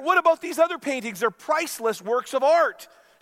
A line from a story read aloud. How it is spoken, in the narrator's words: shouted the irate bidder